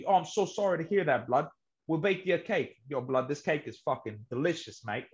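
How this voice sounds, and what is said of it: Put-on English accent. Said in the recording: “English accents”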